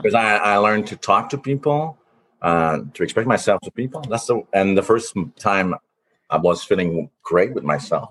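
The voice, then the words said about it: Speaks with a noticeable accent. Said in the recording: “He has such an accent. I could already hear it.”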